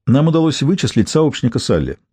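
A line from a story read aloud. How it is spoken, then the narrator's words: Plain. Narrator (Russian): сказал Болитер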